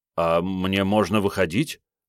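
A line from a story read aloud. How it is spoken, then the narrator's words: Uncertain question. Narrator (Russian): неуверенно спросил парень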